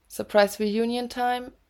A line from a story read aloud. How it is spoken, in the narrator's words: Niall squeaked